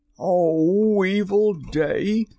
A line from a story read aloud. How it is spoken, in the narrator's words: cried Starkey